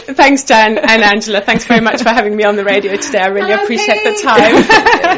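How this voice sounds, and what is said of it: Slight Zimbabwean accent. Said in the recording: “we can detect a slight accent there ... Zimbabwean originally”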